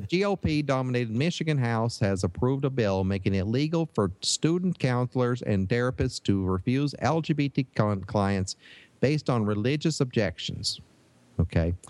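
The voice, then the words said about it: Put-on Michigan Yooper accent. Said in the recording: “do it in a uh, Michigan accent ... I could do a Yooper accent here”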